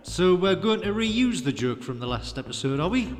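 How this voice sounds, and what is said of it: Broad Scottish accent. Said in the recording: “that's quite a broad accent you have there, Commander. What part of Scotland are you from?”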